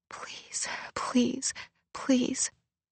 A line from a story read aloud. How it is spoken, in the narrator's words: At 94, she started muttering under her breath